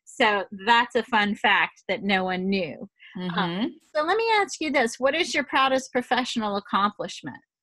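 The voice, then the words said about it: Louisiana accent. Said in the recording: “I know by my accent you can't tell that I ever stepped outside of Louisiana”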